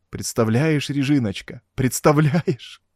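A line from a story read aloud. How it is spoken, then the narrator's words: Loud sobbing. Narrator (Russian): Эдгар рыдал в голос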